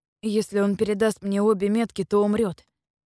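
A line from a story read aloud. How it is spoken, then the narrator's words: Plain. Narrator (Russian): ответил Вайдун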